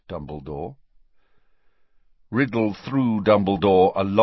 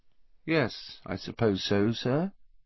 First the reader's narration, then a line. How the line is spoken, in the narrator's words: he said finally, in an expressionless voice